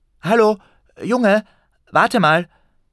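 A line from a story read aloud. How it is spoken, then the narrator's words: Sudden call from behind. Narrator (German): plötzlich jemand von hinten rief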